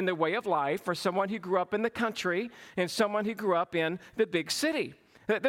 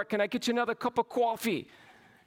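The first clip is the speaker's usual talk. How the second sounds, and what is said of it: Put-on nasal New York accent. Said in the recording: “They spoke with a nasal accent ... or if they're from New York”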